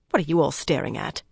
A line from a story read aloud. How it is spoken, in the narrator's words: muttered